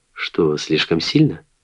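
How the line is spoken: Almost friendly tone. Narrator (Russian): сказал почти дружеским тоном

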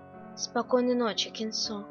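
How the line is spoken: Sleepy whisper. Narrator (Russian): прошептал Чунин, уже проваливаясь в сон

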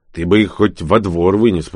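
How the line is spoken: Grumbled. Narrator (Russian): проворчал Данила

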